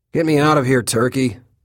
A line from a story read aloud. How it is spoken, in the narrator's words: I shout